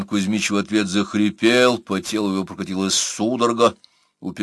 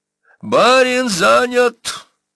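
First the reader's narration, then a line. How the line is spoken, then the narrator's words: Thin high shout. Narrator (Russian): тоненько закричал Бурса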